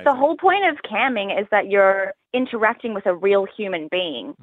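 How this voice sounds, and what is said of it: Australian accent. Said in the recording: “stick to the Australian accent ... you're Australian ... I love your accent ... the Australian accent ... It's quite brash”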